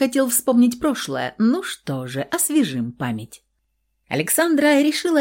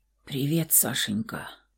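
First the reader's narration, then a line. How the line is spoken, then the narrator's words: Hoarse mutter. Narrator (Russian): пробормотал он сипло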